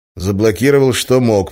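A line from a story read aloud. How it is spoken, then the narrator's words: Gloomy. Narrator (Russian): мрачно сказал я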